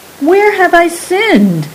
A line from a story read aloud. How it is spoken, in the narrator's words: cried Saran